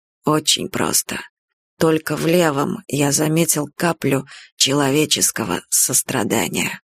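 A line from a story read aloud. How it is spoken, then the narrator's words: Gruff mutter. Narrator (Russian): буркнул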